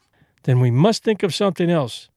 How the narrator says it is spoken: he went on, cheerfully

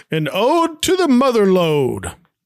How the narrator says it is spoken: Thurston then shouts

